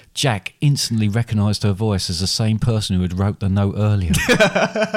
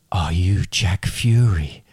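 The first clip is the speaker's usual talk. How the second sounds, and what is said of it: Hushed, quiet voice. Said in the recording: “in a hushed voice... Oh, I hate that voice.”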